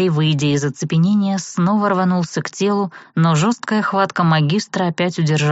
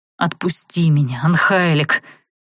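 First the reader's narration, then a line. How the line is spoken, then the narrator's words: Elf's growl. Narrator (Russian): рыкнул эльф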